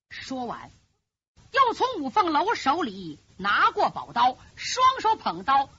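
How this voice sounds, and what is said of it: Usual voice. Nothing is said of it.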